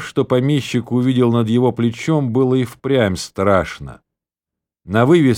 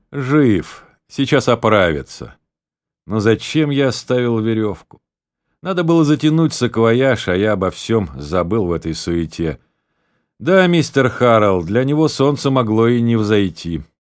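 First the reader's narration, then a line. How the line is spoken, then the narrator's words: Relieved sigh. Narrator (Russian): Гарт вздохнул с облегчением и сказал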